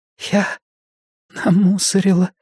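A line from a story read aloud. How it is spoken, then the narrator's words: Whisper. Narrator (Russian): прошептала Орлин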